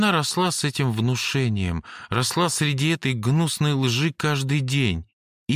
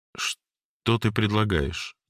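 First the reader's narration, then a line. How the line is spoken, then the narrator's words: Calm question. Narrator (Russian): спокойно спросил я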